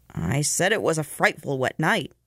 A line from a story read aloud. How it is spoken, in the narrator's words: the conductor persisted irritably, annoyed by the man's reserve